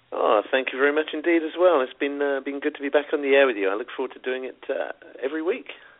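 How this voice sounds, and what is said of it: British accent. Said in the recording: “It's that British accent. ... that sounds wonderful”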